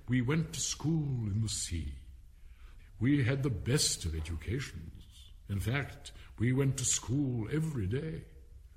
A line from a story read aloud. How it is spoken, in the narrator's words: the Mock Turtle went on at last, more calmly, though sobbing a little now and then